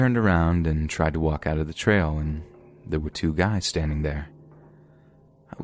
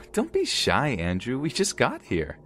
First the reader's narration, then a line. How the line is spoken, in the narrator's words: Gwen laughed at me and said